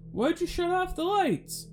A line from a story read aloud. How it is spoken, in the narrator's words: The cop turned back towards us and yelled out